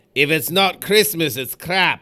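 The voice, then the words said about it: Scottish accent impression. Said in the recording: “you do a Mike Myers Scottish impression.”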